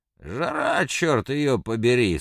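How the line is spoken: Hoarse. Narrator (Russian): сказал Рыбников хрипло

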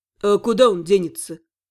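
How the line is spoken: Wistful smirk. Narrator (Russian): Чуть грустно усмехнулся Шон

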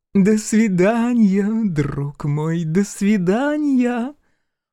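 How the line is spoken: Lewd giggle. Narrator (Russian): Похабно хихикнула беглянка

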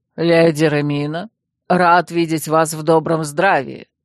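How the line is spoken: Slightly weary. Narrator (Russian): немного устало кивнул архимаг Лагрен

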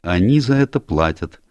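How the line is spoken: Dry reply. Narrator (Russian): сухо ответил Энн

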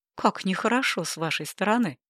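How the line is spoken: Cheerful laughing. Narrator (Russian): Она весело засмеялась

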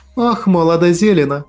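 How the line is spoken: Heavy sigh, woman. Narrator (Russian): Тяжело вздохнула женщина

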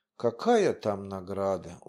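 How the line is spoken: Glum speech. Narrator (Russian): уныло сказал Паша

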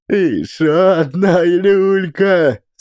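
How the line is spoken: Laughing holy fool. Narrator (Russian): смеялся юродивый

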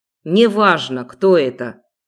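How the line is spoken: Stern. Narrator (Russian): строго ответил Хантер

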